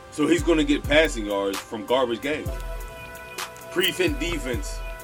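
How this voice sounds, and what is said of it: Excited yelling. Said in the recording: “I'm sorry for yelling, but I get really excited.”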